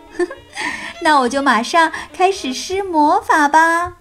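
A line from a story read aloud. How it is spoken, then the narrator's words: Light laugh. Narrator (Chinese): 海莫丽娜笑了笑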